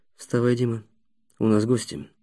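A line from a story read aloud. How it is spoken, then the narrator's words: Whisper. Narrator (Russian): Ростислав шепнул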